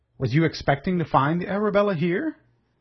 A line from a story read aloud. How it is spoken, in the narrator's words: Wolverstone laughed and spoke loud enough to be heard by all around him